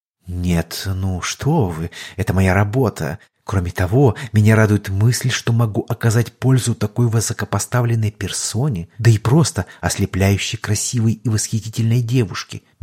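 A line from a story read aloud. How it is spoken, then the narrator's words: Sweet sing-song voice. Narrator (Russian): медовым голоском запел собеседник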